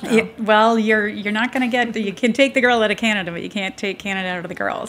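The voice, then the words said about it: Canadian accent. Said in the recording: “That sounds like a Canadian accent.”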